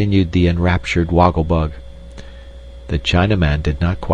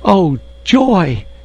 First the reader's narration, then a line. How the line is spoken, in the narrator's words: exclaimed the insect in delight